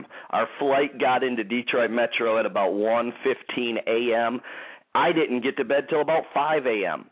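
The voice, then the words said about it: Tired-sounding voice. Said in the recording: “I sound a little tired”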